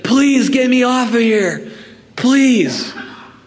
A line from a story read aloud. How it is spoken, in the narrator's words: pleading with them